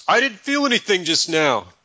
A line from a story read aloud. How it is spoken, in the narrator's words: The hang glider enthusiast shouts